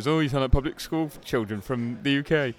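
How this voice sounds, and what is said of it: Put-on mock uneducated British accent. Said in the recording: “I don't know what accent that was. ... that's how people went to a very nice school think that like uneducated kids talk”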